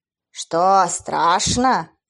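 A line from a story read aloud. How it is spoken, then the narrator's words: Growl. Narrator (Russian): зарычал один из крылатых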